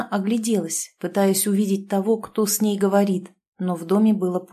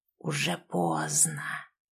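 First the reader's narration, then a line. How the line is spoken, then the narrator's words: Hissing. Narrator (Russian): послышалось шипение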